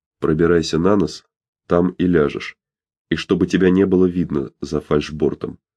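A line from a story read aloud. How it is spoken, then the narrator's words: Barely audible speech. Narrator (Russian): Томас Хадсон чуть слышно проговорил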